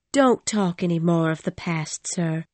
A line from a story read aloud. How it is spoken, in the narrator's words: I said sadly